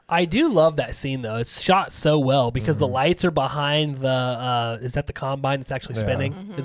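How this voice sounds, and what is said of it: Usual voice. Nothing is said of it.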